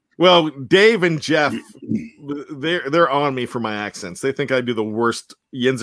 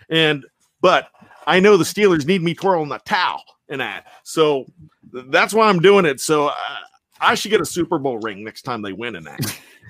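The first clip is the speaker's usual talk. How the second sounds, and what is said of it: Put-on Pittsburgh Yinzer accent. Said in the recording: “Am I getting better with the Yinzer accent? ... That was really good. I was going to say that was really, really good ... it's getting better.”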